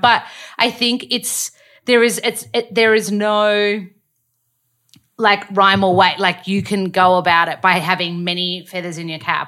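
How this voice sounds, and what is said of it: Australian accent. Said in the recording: “my accent ... the Australian accent ... Australian dialect”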